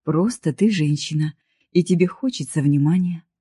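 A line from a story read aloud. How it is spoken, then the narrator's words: Gentle, smiling. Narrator (Russian): закончил я ее слова, мягко улыбнувшись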